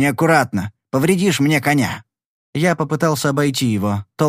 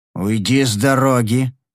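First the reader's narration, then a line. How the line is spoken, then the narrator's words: Growling. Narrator (Russian): зарычал я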